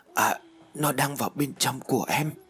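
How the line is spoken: Sensual moan. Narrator (Vietnamese): Trinh rên lên những âm thanh đầy nhục dục

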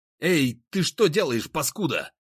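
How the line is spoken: Shouting. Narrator (Russian): закричал я

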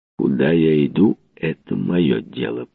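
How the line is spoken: Slow speech. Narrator (Russian): проговорил он медленно

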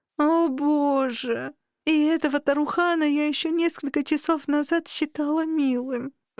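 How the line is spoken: Moaning. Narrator (Russian): простонала

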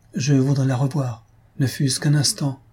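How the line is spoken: Sighing. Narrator (French): dis-je en soupirant

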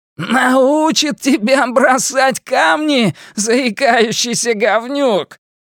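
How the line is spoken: Half shouting, half laughing. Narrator (Russian): Генри то ли кричал, то ли смеялся

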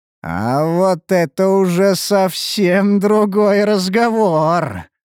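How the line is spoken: Drawled with manic grin. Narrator (Russian): протянул я с маниакальной усмешкой

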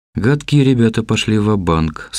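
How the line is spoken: Dejected voice. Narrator (Russian): сказала Ксения упавшим голосом

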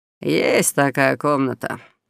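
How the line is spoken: Lazy offhand remark. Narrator (Russian): лениво бросил он

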